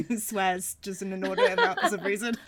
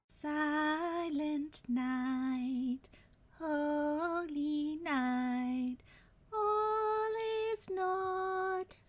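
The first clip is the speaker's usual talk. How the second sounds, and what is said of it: Sings in a character voice. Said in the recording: “That was my impression of Little Ginger Rabbit”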